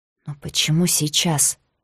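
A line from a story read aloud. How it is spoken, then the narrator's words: Confused muttering. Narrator (Russian): пробормотала Ребекка, не в силах собраться с мыслями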